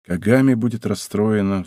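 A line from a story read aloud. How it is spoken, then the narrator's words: Sighing. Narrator (Russian): вздохнул он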